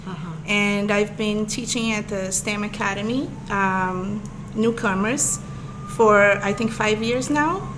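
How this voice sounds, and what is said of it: Brazilian accent. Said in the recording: “as you probably be able to tell soon by my accent, I'm from Brazil”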